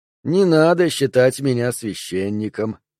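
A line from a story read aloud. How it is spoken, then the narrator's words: Gentle interruption. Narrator (Russian): мягко перебил его хозяин дома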